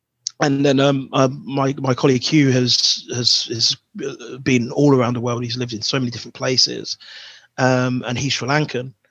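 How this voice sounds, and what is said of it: Black British accent. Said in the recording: “I'm black British... I'm born in Buckinghamshire... hence the accent”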